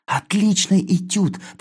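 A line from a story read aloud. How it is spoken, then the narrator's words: Hurried whisper. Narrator (Russian): торопливо шепнул я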